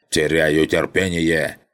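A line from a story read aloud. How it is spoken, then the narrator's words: Barked. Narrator (Russian): рявкнула голова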